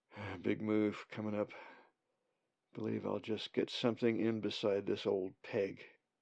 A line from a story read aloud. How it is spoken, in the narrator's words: He mutters to himself